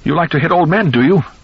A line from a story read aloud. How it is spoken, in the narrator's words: Irwin Goldman cried out shrilly